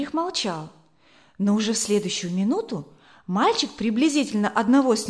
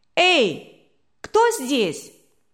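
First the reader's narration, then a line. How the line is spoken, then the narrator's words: Thin boyish shout. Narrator (Russian): тонкий мальчишеский голос крикнул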